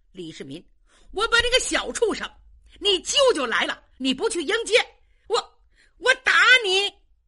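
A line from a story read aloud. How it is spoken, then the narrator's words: Aggressive shout. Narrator (Chinese): 窦建德气势汹汹的冲着李世民喊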